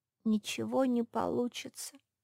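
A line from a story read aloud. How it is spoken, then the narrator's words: Sad objection. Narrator (Russian): грустно возразила хозяйка спальни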